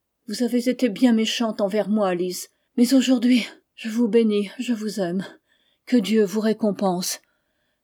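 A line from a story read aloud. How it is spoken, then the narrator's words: Broken child's voice. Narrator (French): dit bébé d'une voix brisée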